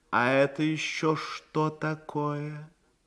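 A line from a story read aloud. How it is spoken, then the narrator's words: Weary reproachful question. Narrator (Russian): Лорд устало с упреком спросил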